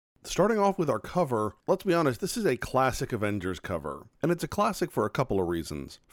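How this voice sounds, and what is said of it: Congested, stuffy sick voice. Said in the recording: “I got sick, as you may or may not be able to tell from my voice right now, just getting over a head cold ... sniffling and coughing”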